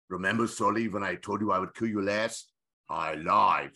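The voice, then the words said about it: Imitates another person's voice. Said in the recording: “done my cocktail impression of Arnold”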